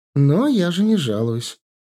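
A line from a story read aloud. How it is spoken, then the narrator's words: Cheerful laughing. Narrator (Russian): рассмеялась она весело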